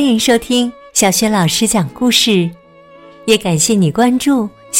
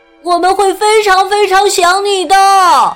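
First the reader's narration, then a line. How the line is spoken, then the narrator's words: Loud group shouting. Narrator (Chinese): 他的兄弟姐妹们大声喊道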